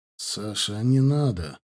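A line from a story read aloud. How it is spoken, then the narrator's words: Sighing. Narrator (Russian): вздохнул Геворгадзе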